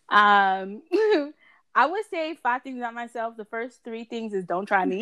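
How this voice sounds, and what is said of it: New York accent. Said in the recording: “I'm from New York, as you could tell by this beautiful accent.”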